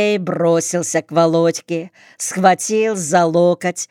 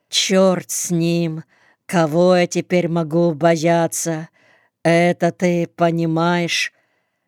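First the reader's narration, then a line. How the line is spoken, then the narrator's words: Simple, unaffected, glum. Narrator (Russian): Володька сказал это без рисовки, просто и как-то уныло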